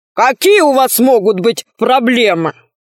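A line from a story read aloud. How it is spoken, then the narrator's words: Deep bass voice. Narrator (Russian): Сказал он глубоким басом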